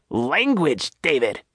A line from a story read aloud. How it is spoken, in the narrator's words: Nadine barked back